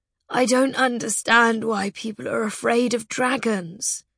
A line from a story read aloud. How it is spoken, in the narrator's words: Dribble said sadly